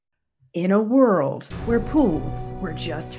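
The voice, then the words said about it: Dramatic movie trailer narrator voice. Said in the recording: “classic movie trailer voice ... my best impression”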